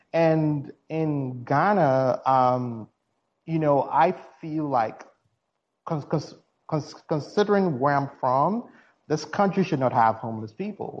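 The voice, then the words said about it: Ghanaian accent. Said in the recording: “I'm originally from Ghana, as you can tell from my accent.”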